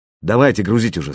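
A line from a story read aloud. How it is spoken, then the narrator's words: Angry. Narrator (Russian): сказал зло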